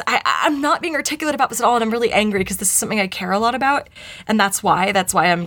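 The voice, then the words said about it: Choked-up, emotional voice. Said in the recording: “getting choked up.”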